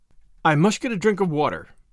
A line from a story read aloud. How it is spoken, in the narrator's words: said Anne hastily